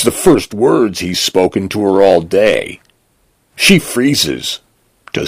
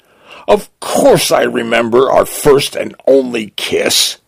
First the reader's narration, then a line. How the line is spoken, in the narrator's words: she blurts, blushing